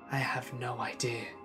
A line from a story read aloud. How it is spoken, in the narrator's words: whispered back